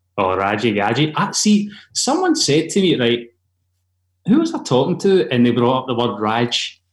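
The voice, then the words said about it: Scottish accent. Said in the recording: “people hear my accent. Oh, you must love Outlander.”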